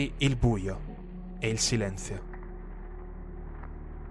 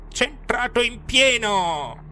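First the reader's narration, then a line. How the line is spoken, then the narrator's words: Euphoric old woman's yell. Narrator (Italian): la mia vecchina urlare euforica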